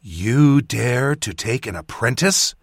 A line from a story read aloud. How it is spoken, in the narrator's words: Samana spat